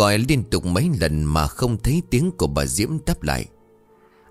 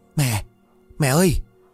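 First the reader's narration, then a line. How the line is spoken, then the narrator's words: Trembling, panicked loud call. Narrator (Vietnamese): Cả người của anh run rẩy hoảng hốt gọi lớn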